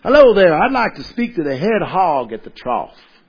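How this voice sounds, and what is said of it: Put-on Texan accent. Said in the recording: “So I'm going to give you my best Texas accent... I'm probably bad at it.”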